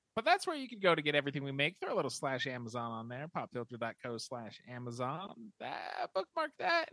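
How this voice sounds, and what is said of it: Denver American accent, usual voice. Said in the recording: “this is my real voice ... You just dropped your accent completely. It's weird. ... he's from Denver, so this is the Denver accent. ... This is the Denverite accent. I'm finally not talking like I'm from Philadelphia.”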